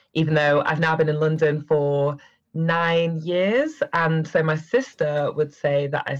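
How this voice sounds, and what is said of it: Northern English Manchester accent. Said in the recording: “that lovely accent ... I'm originally from Manchester, which is where this northern accent comes from”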